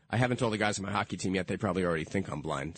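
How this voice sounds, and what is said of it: Slightly hoarse voice. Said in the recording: “A little bit hoarse,”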